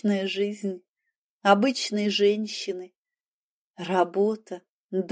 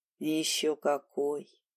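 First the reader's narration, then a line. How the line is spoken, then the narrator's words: Sad smirk. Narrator (Russian): Дима усмехнулся грустно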